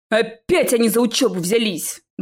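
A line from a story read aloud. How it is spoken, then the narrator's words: Howling. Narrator (Russian): взвыл Чез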